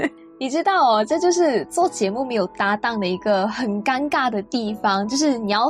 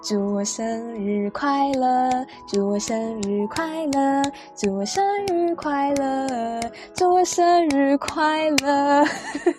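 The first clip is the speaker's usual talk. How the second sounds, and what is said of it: Quietly sung birthday song. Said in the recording (Chinese): “我也不能够太大声的喧哗，那我就小小声的给自己送上一首生日快乐歌”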